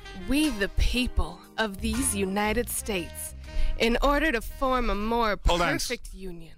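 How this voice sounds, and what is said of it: Southern Belle drawl. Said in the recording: “Where is the Southern Belle accent? ... you definitely got a little drawl in there.”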